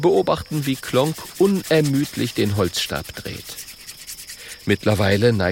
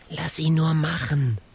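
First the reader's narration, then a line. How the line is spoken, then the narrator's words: Quiet small dragon. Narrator (German): sagt der kleine Drache leise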